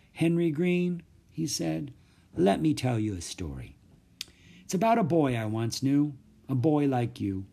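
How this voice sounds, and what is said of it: Quiet, soft voice. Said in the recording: “in a quiet voice.”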